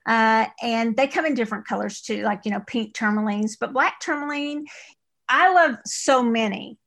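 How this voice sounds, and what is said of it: East Texas accent. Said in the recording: “That's my East Texas accent”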